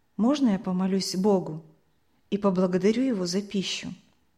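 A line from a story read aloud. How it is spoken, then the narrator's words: Quiet question. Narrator (Russian): Николай тихо спросил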